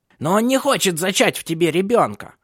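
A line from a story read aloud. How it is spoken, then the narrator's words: Shouted. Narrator (Russian): выкрикнула Ханна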